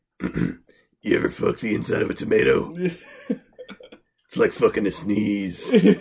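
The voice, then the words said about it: Imitates another person's voice. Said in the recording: “that sounded just like it ... That's pretty good ... If Nick Kroll dies, Nick Kroll, put it in your will that I'll take over your role.”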